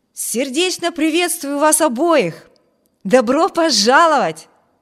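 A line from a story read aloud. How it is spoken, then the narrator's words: Exclaimed. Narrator (Russian): воскликнул Виберт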